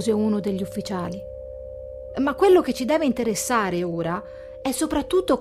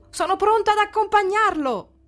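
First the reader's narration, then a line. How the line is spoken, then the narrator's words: Shouted. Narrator (Italian): gridò il Muzzo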